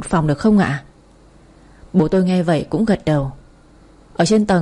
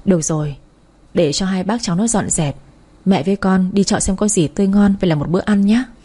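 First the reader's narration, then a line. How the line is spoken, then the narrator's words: Sighing, then smiling. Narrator (Vietnamese): thở dài mà cười một cái rồi nói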